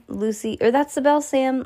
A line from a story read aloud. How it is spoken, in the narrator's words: Lucy yelled